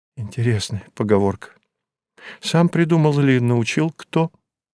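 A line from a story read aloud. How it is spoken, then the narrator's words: Trembling-voiced question. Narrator (Russian): дрогнувшим голосом спросила Зинаида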